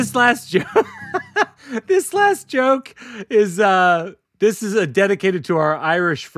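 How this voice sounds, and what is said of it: Usual voice. Nothing is said of it.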